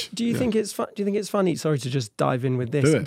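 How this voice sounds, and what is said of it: Croaky, hoarse voice. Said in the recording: “I've got a bit of a croaky voice”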